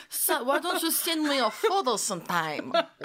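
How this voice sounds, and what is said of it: Bad put-on British accent. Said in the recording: “I feel like you almost had like a Portuguese accent or something. ... That was my British accent ... That's terrible.”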